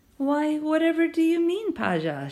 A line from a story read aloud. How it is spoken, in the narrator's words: she asked, her voice dripping with innocence